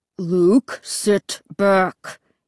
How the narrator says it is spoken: Dad growled

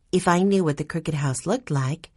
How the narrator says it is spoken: Violet said in her gentle voice

